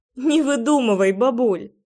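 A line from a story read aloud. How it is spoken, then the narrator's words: Laughing. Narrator (Russian): рассмеялась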